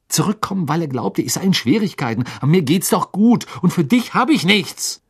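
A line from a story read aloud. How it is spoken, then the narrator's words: Hissing angrily. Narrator (German): fauchte er Hedwig an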